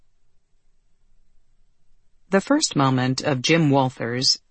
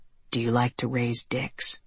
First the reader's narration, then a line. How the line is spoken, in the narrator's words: he whispered to her